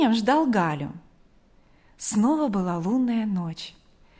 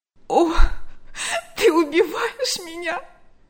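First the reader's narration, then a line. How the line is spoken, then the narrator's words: Sobbing. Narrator (Russian): рыдала она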